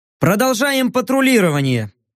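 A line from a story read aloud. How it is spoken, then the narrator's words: Cheerful declaration. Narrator (Russian): бодро заявил я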